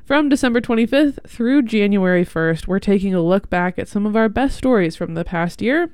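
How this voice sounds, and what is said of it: Congested, stuffy-nosed voice. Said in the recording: “I have a head cold.”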